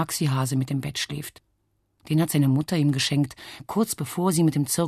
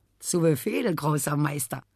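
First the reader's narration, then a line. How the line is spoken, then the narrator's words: Laughing. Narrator (German): Heiner lacht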